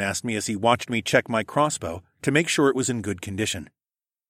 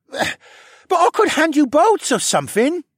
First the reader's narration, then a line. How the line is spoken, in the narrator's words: he whined